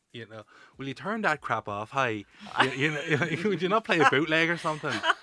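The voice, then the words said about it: Attempted Ulster Irish accent. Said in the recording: “I don't know what kind of accent that was. That was my best attempt at someone from that kind of Ulster area.”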